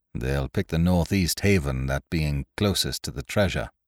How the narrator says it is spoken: said Ned Lowe coolly

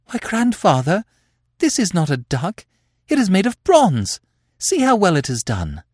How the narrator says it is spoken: Rosabella exclaimed

